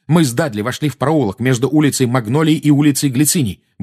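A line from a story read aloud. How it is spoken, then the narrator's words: Fast, restrained anger. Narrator (Russian): быстро заговорил Гарри, стараясь обуздать свою злость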